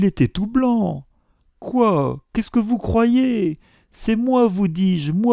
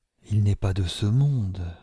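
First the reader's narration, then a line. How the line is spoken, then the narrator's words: Whispering. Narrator (French): chuchota Mylord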